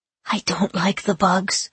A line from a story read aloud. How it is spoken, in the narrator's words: Claire whispered